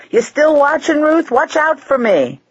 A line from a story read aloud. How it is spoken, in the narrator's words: yelling over her shoulder